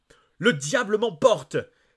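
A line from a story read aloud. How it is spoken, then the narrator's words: Astonished exclamation. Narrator (French): s'écria le docteur Jenkins stupéfait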